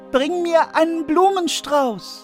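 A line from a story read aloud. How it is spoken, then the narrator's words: Called out. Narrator (German): rief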